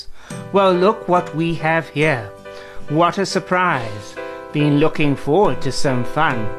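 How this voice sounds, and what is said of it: Cheeky hyena character voice. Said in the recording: “in a cheeky voice”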